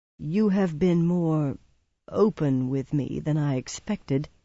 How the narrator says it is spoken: he said slowly

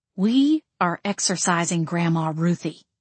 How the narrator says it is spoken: I growled

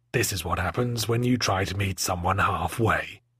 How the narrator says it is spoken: growled

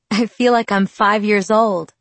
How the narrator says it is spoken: I laughed

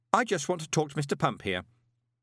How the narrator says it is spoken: added sharply

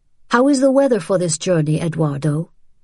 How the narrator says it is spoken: Madame Babineau asked

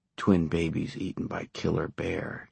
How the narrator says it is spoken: Johnny murmured

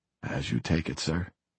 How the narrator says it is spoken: Stevens replied gently

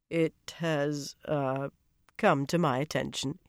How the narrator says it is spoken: he said hesitantly

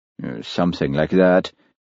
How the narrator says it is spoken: mumbled Hamish, embarrassed

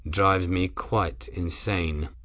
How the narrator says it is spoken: Grim said quietly

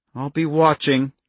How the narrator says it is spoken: Charlie said grimly

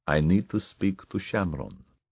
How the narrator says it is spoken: he said quietly

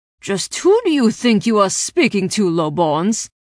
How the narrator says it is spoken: spat at the both of us

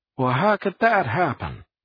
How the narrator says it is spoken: Luckman said loudly

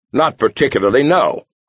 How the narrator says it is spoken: Zerchi snapped

